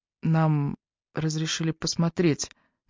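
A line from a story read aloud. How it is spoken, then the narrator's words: Quiet addition. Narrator (Russian): негромко добавила Эбби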